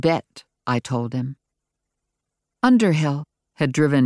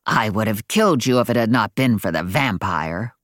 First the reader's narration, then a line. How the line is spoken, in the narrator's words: growled the weaver bitterly